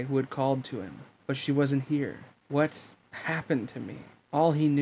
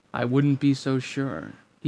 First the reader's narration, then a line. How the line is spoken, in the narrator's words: he said evenly